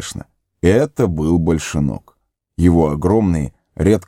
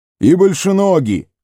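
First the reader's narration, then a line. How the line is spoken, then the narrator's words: Old hobbit's distant shout. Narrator (Russian): заорал старый хоббит из глубины павильона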